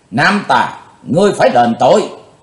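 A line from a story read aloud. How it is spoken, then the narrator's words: Shouting. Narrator (Vietnamese): Trường Hận thư sinh quát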